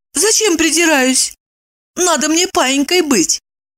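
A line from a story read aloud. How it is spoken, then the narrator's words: Timid question. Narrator (Russian): робко спросила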